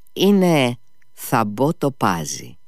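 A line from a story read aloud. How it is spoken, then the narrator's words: Smiling. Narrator (Greek): χαμογέλασε και πάλι ο Νικολάη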